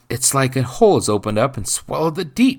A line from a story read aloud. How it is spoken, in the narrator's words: blurted out